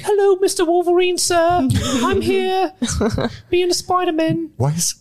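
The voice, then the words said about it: Dickensian-sounding Tom Holland impression. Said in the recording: “your Spider-Man rendition sounds like a character from a Charles Dickens novel ... my impersonation of Tom Holland”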